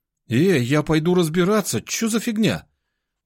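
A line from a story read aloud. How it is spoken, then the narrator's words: Exclaiming. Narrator (Russian): воскликнул Миша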